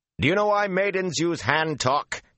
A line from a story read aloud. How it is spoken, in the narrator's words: he shouted at the top of his leap